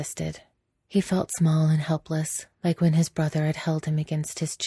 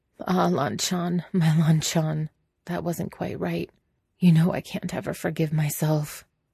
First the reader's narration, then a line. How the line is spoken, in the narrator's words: Wei Wuxian laughed, voice hoarse, and he muttered